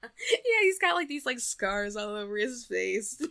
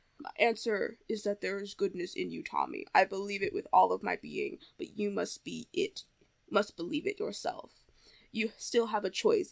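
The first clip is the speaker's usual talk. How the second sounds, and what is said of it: Impression of Zordon. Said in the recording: “I'm gonna do a Zordon impression, I think.”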